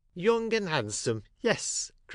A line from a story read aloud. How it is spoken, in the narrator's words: cried the old woman, quite delighted